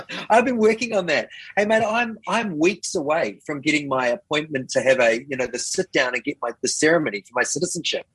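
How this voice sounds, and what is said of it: New Zealand accent. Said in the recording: “familiar New Zealand twang”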